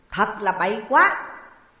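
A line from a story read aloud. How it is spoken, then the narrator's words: Resounding shout. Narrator (Vietnamese): tiếng quát vang vọng của Ngũ Mai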